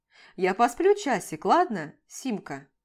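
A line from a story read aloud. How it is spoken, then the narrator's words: Stern. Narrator (Russian): Строго прищуривается он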